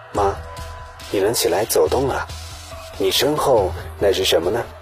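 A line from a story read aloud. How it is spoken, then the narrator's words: Soft question. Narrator (Chinese): 大儿子轻声问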